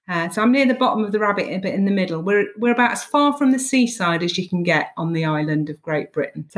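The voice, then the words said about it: English Midlands accent with lilt. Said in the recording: “you've definitely got, I'd say, that Midlands lilt to your accent.”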